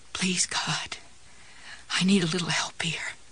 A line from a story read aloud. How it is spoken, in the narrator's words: Jessie whispered